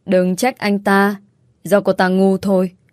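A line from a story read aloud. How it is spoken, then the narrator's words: Cold. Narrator (Vietnamese): Lâm lạnh lùng nói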